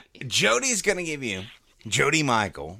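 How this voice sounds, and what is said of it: Exaggerated radio announcer voice. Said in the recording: “Quit talking like that. ... I'm just doing radio voice”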